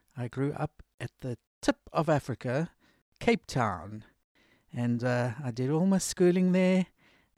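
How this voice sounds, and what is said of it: Slight South African accent. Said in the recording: “I have a bit of a South African twang.”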